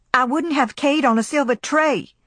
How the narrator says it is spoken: cried Scarlet in fury

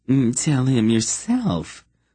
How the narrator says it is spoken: the young man said in a piping voice

